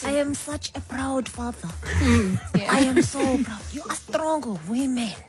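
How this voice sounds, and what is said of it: Imitated accent of a proud father. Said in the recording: “Obviously, look with the accent.”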